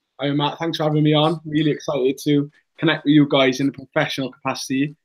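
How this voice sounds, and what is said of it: Newport accent. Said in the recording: “great to hear that Newport accent”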